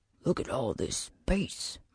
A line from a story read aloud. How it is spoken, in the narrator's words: Marnes whispered